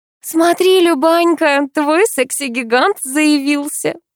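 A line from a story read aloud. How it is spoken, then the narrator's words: Giggling. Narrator (Russian): Хихикнула Катя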